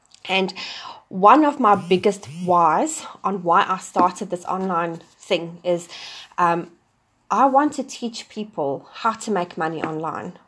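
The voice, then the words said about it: South African accent. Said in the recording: “you can probably pick up an accent. I'm originally from South Africa.”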